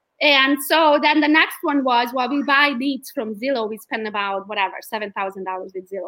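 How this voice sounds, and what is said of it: Speaks with a foreign accent. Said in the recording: “I have a freaking accent ... plus I have an accent.”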